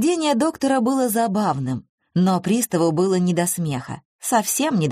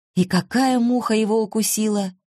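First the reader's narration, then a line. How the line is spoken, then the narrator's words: Timid opening. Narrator (Russian): робко начал Кирьяков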